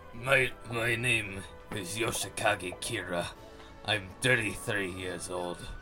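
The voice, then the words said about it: Weird character voice, not Russian. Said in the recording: “It's not even trying to do Russian accent, it's just a weird voice.”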